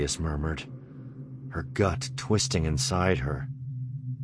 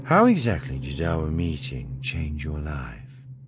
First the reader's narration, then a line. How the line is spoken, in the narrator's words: Thalia sighed